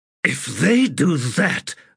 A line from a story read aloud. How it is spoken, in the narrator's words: Abrastel said in a snarl